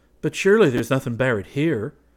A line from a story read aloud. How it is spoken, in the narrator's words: exclaimed Braith uneasily